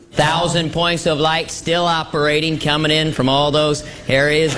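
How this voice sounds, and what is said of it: Exaggerated George Bush impression. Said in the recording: “George Bush here. I'm watching you do your impression of me, and I gotta say, it's nothing like me. ... It's totally exaggerated.”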